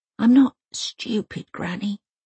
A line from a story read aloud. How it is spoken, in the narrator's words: she whispers